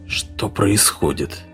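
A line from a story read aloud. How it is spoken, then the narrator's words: Hoarse question. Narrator (Russian): хрипло спросил Эдгарсон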